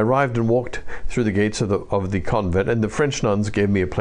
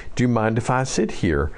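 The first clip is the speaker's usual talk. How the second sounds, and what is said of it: Put-on Southern American accent. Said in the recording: “in a sort of Southern American accent”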